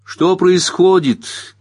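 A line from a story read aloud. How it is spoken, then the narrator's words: Shouted from another room. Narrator (Russian): крикнула Кэрол из ванной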